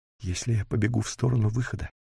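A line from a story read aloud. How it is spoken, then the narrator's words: Exhausted whisper. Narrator (Russian): прошептала Никки, уже совершенно не способная куда-то бежать, да еще в гору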